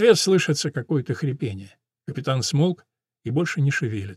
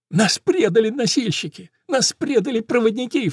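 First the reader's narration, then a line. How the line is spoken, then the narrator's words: Sobbing young soldier. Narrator (Russian): всхлипывает солдатик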